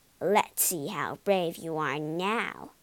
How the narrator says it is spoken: sneered Norm

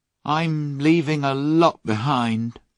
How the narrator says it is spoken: he said sadly to John

